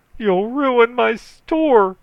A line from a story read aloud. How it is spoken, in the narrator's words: screamed Emerson